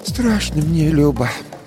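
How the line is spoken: Sighing old woman. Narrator (Russian): вздохнув, сказала баба Маша

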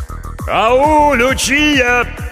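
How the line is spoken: Shouted through cupped hands. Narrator (Russian): крикнул кореец, сложив ладони рупором

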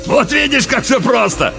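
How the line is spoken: Loud laughter. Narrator (Russian): вновь захохотал Уильямс

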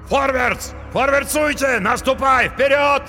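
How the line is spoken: Yelling crowd. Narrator (Russian): завопили наемники

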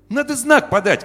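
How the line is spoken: Shouted. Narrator (Russian): крикнул мальчишка

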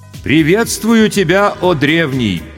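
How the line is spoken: Loud and respectful. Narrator (Russian): почтительно и громко произнес старший майор госбезопасности

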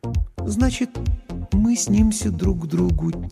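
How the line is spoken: Quiet. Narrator (Russian): тихо повторила Лана

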